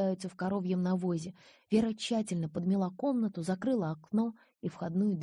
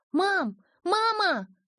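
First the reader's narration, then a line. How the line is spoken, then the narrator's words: Loud shout down street. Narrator (Russian): закричала Вера на всю улицу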